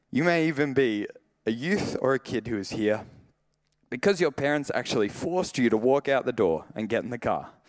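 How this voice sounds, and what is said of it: Emotional voice. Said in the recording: “I don't know why I'm getting emotional.”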